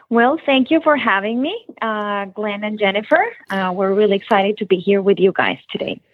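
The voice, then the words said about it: Noticeable non-local accent. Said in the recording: “with that accent, you are definitely not from Palm Beach area.”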